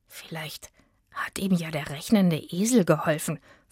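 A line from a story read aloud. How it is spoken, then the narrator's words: Whispered. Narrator (German): flüsterte Itzig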